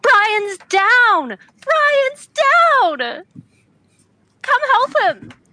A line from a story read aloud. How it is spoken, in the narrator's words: screaming out, screams out